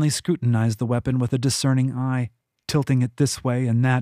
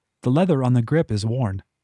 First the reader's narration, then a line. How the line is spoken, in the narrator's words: said